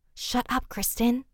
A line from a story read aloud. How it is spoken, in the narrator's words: they both said in an almost whispering voice